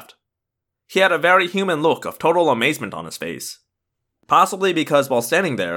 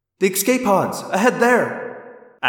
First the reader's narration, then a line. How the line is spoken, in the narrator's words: Axe cried